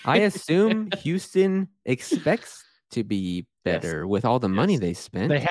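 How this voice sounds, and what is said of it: Usual voice. Nothing is said of it.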